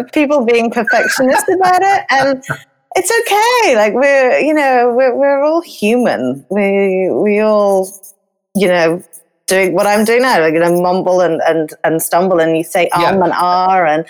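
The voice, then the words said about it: British English accent. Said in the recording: “You're from England, and sometimes that Brit accent comes through.”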